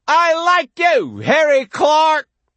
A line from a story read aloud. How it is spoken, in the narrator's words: He yells out at the empty sea